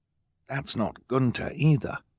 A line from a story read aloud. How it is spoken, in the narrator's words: Klaus whispered